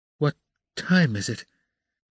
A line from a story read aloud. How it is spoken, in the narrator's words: asked Raskolnikov, looking around uneasily